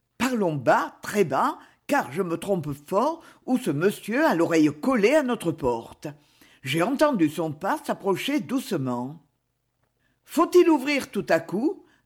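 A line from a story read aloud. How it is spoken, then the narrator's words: Plain. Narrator (French): demanda Lucie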